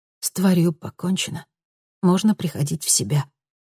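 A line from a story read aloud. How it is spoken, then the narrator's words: Whispered. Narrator (Russian): прошептала она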